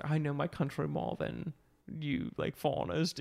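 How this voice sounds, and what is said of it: Put-on British accent. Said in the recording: “I know I'm giving him a British accent here.”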